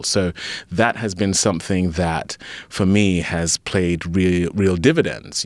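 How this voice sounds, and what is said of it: Plummy, posh English accent. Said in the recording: “my accent is now plummy, shall we say, or posh”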